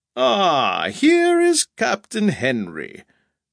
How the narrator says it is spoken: said the actor, in a rich, ringing voice

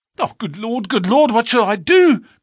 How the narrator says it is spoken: cried the stranger in an ecstasy of despair

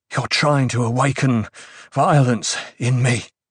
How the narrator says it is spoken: Hate said in a panting voice

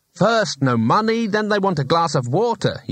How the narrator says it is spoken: he snapped

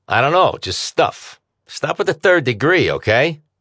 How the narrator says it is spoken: she snapped

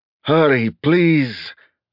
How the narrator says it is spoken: snarled

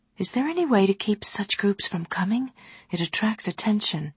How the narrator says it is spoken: Softly she asked

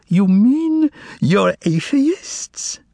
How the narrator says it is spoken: practically squealed with curiosity as he asked

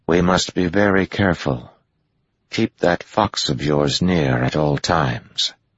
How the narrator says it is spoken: Egwene said softly

